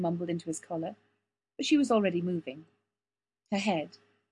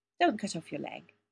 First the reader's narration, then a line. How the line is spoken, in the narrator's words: Kathy advised, grinning sleepily